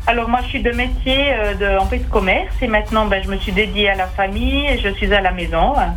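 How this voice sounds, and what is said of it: Swiss French Bernese Jura accent. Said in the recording (French): “ce bel accent ... un accent du Jura bernois”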